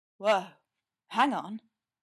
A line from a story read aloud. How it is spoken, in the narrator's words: Ray said, his voice dropping in register and volume both